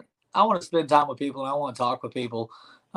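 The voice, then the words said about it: East Texas country accent. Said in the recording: “I grew up in East Texas. If you can't tell by my voice, I'm kind of a little bit of a hick.”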